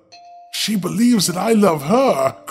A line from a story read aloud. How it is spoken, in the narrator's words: cried the king